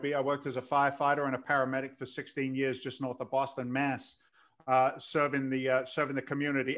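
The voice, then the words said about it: London English accent. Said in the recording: “Your accent's kind of bizarre. ... I came here in 86 from London.”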